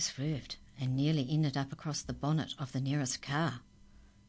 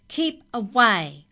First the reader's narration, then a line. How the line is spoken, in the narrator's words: shouted over its shoulder